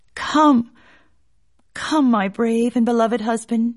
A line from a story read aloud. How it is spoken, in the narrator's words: she cried